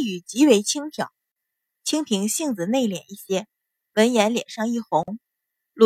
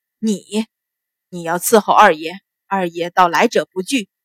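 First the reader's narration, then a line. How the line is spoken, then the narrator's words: Contemptuous laugh, sneering. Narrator (Chinese): 秦鹏大笑出声，一脸的鄙夷，冷笑道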